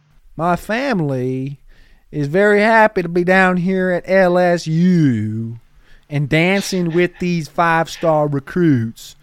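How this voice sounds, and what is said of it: Put-on southern accent imitating another person. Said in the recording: “Did you also get a southern accent when you moved to the South, like Brian Kelly did? ... him suddenly getting in a southern accent to attract more people. It's very cringy, but very funny.”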